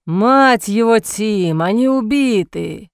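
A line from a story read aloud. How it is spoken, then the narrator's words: Man groaning. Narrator (Russian): Простонал один из мужчин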